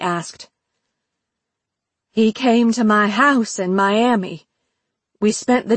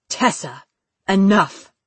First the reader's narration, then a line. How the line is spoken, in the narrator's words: Lee said, in a stern voice she had never heard him employ before